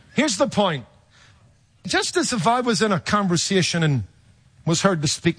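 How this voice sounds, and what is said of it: Distinctive non-American English accent. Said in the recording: “I recognize that accent... I've been taken from everything, from a German to a South African to an Australian... It's an accent. It sets you apart... my accent might cause people to turn and go, hey, he's got an accent. Are you from Ireland or South Africa or Australia?”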